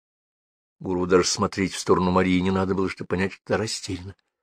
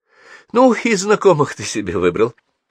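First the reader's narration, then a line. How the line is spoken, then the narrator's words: Nervous laughter. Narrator (Russian): нервно рассмеялась она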